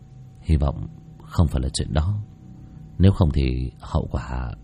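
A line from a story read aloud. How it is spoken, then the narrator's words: Mutter. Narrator (Vietnamese): Bác cổ nhìn về hướng ngọn núi mà lẩm bẩm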